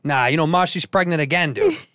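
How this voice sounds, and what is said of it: Thick Chicago accent. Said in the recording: “I had this thick Chicago accent.”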